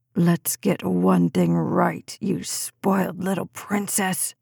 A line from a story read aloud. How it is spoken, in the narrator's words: he hissed into her face